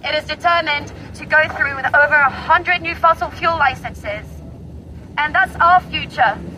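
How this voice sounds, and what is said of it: Very posh English accent. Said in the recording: “you can hear the accent. ... very, very posh.”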